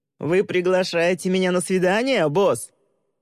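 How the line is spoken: Young man shouting back. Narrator (Russian): Молодой человек прокричал ей в ответ

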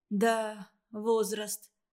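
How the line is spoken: Sighing woman in labor. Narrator (Russian): роженица вздохнула

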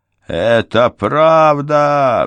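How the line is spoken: Roared, giant. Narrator (Russian): взревел гигант

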